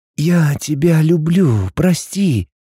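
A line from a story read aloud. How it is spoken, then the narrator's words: Hoarse, barely intelligible voice. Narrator (Russian): выдал мой хриплый, едва понятный голос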